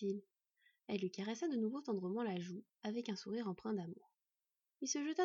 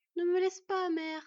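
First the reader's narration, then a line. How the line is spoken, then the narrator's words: Son sobbing. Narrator (French): sanglota leur fils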